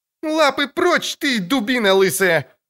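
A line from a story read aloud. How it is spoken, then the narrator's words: Furious yell. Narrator (Russian): заорала Цири бледнее от бешенства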